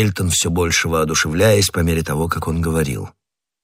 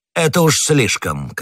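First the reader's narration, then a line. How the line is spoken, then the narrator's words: Shouted. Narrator (Russian): крикнул Бекингем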